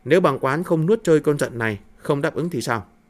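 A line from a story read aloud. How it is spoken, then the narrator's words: Soft, thoughtful question. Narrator (Vietnamese): Hạo Đức Vương hơi trầm ngâm, khẽ hỏi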